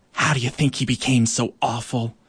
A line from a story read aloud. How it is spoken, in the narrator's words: whispering to one another